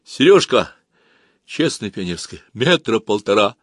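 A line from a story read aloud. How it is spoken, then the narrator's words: Frightened reply. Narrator (Russian): Женька также испуганно ответил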